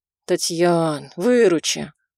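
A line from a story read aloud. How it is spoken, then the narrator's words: Weary. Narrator (Russian): Устало произносит Сергей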